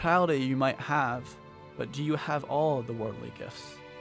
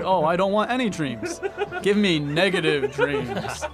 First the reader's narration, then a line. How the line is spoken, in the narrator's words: laughing to himself